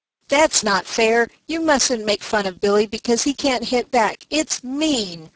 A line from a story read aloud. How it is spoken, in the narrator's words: cried Dan